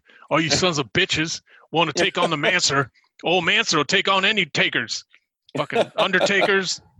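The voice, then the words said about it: Imitates another person's voice, badly. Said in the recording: “my real, real bad Mancer impression.”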